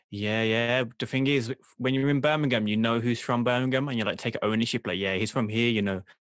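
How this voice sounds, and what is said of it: Birmingham (Brummie) English accent. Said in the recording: “people from Birmingham get a lot of hate as well with the accent ... Do you think I got a bad one? ... Nah, it's. I mean, there's worse.”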